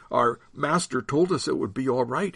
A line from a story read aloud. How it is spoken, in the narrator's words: he stammered